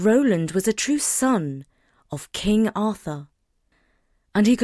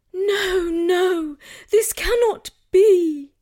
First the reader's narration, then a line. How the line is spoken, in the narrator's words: pleaded Guinevere